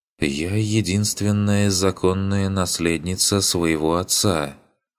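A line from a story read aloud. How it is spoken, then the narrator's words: Lifeless girl's voice. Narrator (Russian): сказала девочка таким же безжизненным голосом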